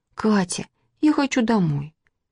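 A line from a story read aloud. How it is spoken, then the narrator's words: Quiet, into ear. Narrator (Russian): тихо сказала она Кате на ухо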